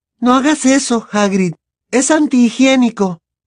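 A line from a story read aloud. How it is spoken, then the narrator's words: Exclaimed. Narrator (Spanish): exclamó Hermione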